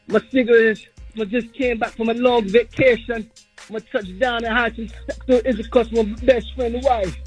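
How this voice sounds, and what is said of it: Fake accent disguising his voice. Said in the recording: “this fake accent ... what's up with that accent though ... he's trying to disguise his voice ... is that a real accent?”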